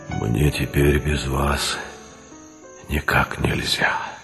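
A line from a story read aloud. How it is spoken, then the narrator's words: Quiet. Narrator (Russian): тихо сказал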